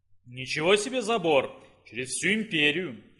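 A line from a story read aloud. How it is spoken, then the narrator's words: Amused snort. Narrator (Russian): хмыкнул император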